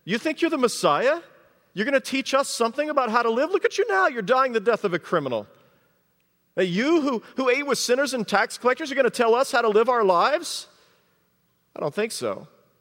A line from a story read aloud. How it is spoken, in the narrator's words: mocked him, and they said